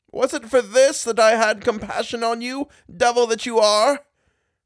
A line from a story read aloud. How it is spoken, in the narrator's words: The latter got into a great rage and cried out